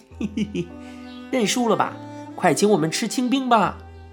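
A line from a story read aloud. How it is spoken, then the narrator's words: Giggling, teasing. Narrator (Chinese): 娃娃脸笑嘻嘻地道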